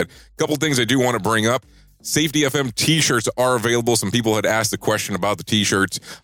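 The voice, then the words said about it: Voice under par, recovering sound. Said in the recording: “my voice is not kind of up to par because I'm coming off the cold”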